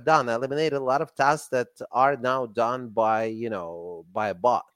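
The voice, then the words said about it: Russian accent. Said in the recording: “You're still stuck with my Russian accent.”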